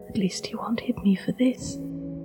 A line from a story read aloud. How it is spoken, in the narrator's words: she had whispered to herself